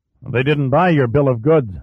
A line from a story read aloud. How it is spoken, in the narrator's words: Manny grunted